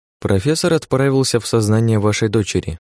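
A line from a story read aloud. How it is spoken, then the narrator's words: Plain. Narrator (Russian): ответила она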